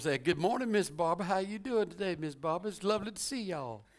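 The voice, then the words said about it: Southern accent imitation. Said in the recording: “sounds more Southern ... you sound like all my people”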